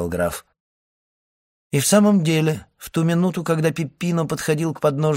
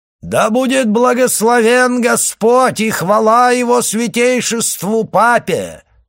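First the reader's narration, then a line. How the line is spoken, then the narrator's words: Loud and clear. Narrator (Russian): произнес он громко и отчетливо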